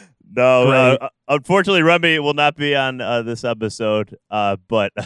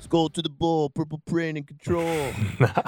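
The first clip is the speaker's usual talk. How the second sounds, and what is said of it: Imitates another person's voice. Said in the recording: “my Remy impression”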